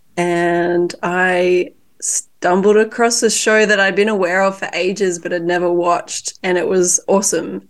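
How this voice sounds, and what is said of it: Sick, congested-sounding voice. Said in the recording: “as you can hear in my beautiful voice, I've been a little bit sick”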